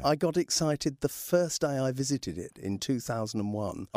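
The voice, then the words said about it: British English accent. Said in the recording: “I do detect yeah. Uh, an accent there from the from the mother country. ... from the UK.”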